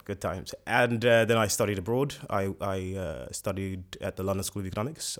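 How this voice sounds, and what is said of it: Slight British accent. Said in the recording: “you have a little British accent there ... I've got a bit of a British accent”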